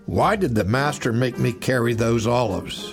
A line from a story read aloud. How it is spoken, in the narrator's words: he grumbled to old Barnabas